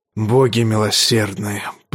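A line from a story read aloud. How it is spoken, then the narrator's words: Anguished muttering. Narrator (Russian): пробормотал король в муке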